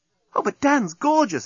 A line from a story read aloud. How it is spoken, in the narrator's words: exclaimed Nettie